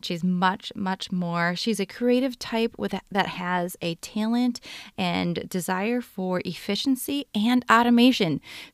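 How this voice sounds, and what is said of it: Minnesota accent. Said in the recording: “we both have Minnesota accents ... our Minnesota accent flares up”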